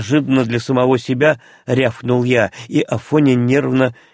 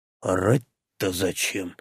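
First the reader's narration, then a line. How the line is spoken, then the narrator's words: Displeased grumbling. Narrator (Russian): недовольно проворчал Фред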